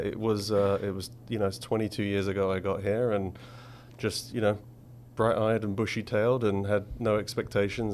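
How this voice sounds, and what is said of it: English accent. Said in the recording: “as listeners can hear, you do have an accent. You are from England.”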